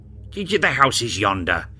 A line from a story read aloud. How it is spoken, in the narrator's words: exclaimed Scrooge